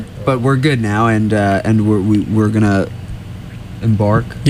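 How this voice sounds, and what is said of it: Usual voice. Nothing is said of it.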